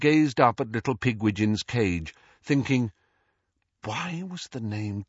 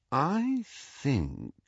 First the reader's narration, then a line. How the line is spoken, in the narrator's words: he said slowly